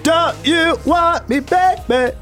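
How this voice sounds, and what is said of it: Mechanical-style singing imitation. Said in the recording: “I'm just kind of go with this mechanical style ... I did your impression of how you would do it ... This mechanical type of stuff.”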